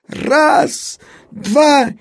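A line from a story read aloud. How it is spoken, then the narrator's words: Father's shout. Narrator (Russian): отец крикнул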